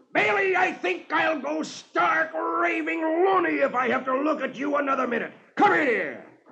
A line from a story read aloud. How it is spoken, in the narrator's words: His top sergeant sticks his head through the window and roars